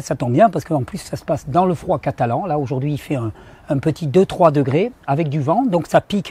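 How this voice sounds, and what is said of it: Strained, deep, worn-out voice. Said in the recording (French): “la voix, elle a un peu moins de plaisir à vous retrouver ... ça a eu raison de ma voix, et elle a du mal à revenir ... ça me donne une voix virile ... avec une voix profonde et chaleureuse”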